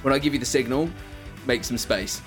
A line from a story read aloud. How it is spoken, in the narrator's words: Chuck's going to shout